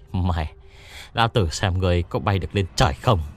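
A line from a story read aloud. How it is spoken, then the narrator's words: Angry panting curse. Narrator (Vietnamese): Tiền béo tức giận thở hổn hển chửi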